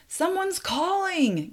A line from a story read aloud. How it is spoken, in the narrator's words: yelled one of his men